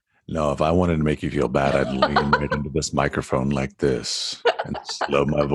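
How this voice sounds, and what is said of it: Usual voice. Nothing is said of it.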